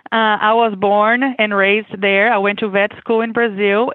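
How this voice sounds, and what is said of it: Brazilian accent. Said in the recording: “I am originally from Brazil, as you can expect with my accent.”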